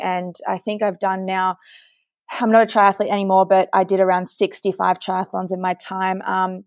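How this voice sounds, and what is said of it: Australian accent. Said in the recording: “with the accent, I'm from Sydney, Australia.”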